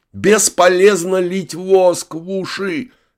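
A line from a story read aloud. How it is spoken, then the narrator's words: Suddenly loud. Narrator (Russian): неожиданно громко сказал Гектор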